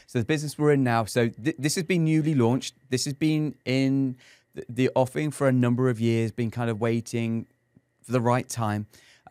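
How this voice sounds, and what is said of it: English accent. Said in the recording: “as an Englishman here in San Antonio ... it's not just the accent”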